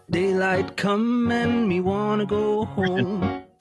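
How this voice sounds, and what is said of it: Sung impression of a singer. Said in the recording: “I apologize for this impression ... That was a good impression ... You could pass for Harry.”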